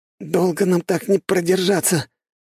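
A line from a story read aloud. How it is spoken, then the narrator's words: Hoarse straining young man. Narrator (Russian): прохрипел парень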